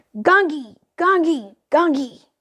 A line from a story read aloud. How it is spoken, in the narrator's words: Shantanu shouted